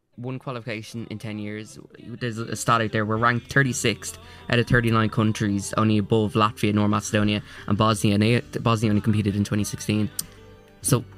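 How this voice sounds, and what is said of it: Fairly thick accent in English. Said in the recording (Dutch): “hij heeft een redelijk dik accent”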